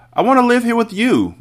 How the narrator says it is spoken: Matilda cried out

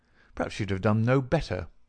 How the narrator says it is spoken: I answered bitterly

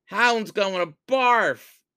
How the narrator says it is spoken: shrieked Batty

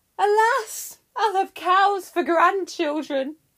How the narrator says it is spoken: Inachus cried, and the 2 mourned together

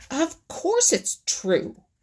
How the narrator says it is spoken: snapped Little Joe Otter

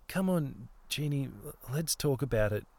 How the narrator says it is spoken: Jackie continued in a tremulous voice, still a little bit thick and throaty from sleep

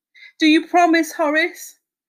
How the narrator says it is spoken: Horace whimpered

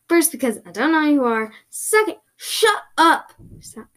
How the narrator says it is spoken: shouted

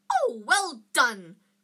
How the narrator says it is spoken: cried Professor Flitwick

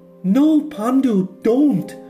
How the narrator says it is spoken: his loved one cried

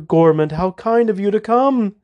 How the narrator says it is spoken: Medea said with a nervous laugh

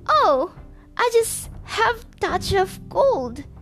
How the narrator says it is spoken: squeaked the wolf, adding a cough at the end

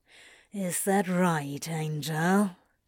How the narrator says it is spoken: He growls, wafting hot breath over Aziraphale's parted lips

